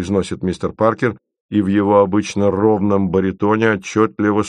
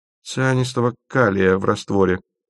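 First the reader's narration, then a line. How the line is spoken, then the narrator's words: Gloomy curt remark. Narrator (Russian): мрачно роняет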